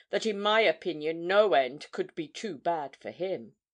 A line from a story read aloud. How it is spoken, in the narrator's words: she replied scornfully